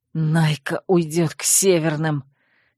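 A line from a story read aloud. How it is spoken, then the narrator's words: Hissed through teeth. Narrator (Russian): сквозь зубы прошипел Вервульф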